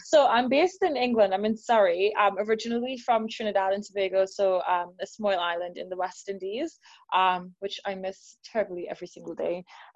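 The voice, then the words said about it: Mixed accent, several regional influences. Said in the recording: “You, my dear, have lots of different accents ... So my accent, depending on how tired I am”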